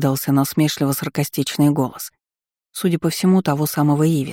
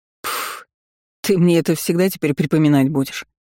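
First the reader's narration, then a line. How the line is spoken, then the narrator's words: Sudden good-natured chuckle. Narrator (Russian): Внезапно хохотнул первый, явно ничуть не обидевшись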